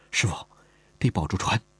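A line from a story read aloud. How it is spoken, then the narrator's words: Soft. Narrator (Chinese): 轻声说道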